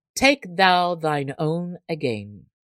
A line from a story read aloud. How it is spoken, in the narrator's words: he said